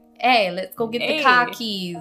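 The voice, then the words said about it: Put-on Boston-style accent. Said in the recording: “I should do a Chicago accent ... Oh, I want to hear your Chicago accent ... Is that Boston? Boston? ... Yeah, that is more Boston.”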